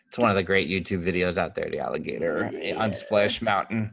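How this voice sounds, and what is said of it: Strong Long Island accent. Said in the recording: “I am so much with my Long Island accent today. I can't stand myself right now... it's like have you been drinking?”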